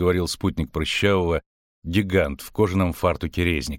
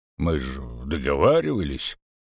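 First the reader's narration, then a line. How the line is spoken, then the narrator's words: Unsure grumbling fat man. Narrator (Russian): неуверенно проворчал толстяк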